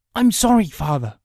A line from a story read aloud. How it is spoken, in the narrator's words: Kay gasped